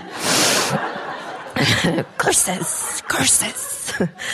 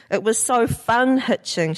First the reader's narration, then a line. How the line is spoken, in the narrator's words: she laughs